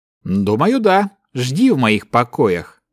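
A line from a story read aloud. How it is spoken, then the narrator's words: Calm swordsman's reply. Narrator (Russian): спокойно ответил мечник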